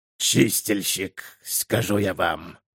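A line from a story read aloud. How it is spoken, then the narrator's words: Hoarse mutter. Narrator (Russian): хрипло пробурчал он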